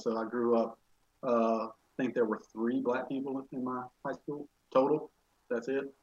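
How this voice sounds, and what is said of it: Rural Alabama Southern accent. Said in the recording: “probably from my accent, you can tell I'm from a pretty rural part of Alabama”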